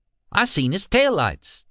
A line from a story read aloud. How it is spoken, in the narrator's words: Tommy said, his voice high with excitement